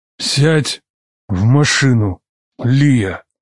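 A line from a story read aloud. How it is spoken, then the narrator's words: Grave, deliberate command. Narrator (Russian): Похоронным голосом велел Камал, разделяя каждое слово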